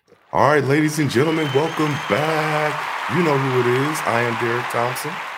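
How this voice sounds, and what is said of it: Slightly hoarse voice. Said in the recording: “Sorry, my voice is a little hoarse. I've been yelling”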